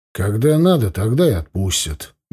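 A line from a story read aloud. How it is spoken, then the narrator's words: Grumbled mutter. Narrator (Russian): буркнул он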